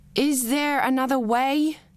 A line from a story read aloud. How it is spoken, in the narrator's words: Billy tries to shout over the music